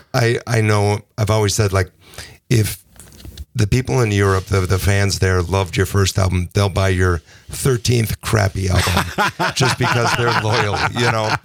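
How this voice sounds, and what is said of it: Hoarse, partly lost voice. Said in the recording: “I've kind of lost my voice there talking over the music”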